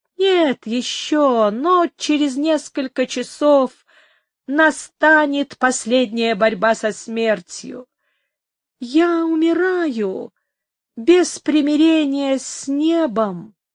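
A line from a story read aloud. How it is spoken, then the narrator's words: Muffled, hollow voice. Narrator (Russian): продолжал Эстебан глухо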